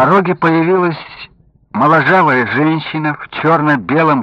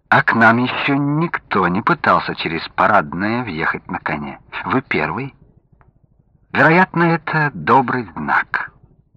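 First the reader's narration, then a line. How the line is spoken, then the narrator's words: Soft joking. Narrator (Russian): она мягко пошутила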